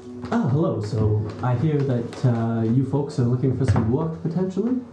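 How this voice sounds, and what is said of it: Flamboyant character accent. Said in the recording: “Quinn does have an accent that sounds like this. ... Quite flamboyant.”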